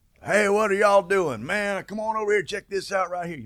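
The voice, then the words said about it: Loud, heavy Texas accent. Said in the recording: “this big, loud voice talking, this big man talking in a big Texas accent ... real heavy accent”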